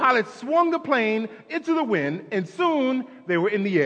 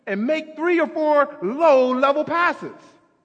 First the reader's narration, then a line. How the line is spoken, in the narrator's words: yelled the photographer